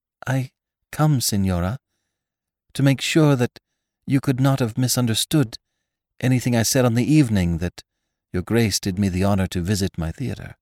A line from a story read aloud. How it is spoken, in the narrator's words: the half-closed eyes had the air of weary authority, she began almost timidly